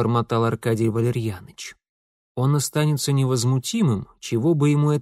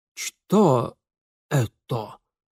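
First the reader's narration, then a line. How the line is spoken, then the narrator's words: Strained, trembling lips. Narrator (Russian): выдавил, стараясь удержать прыгающие губы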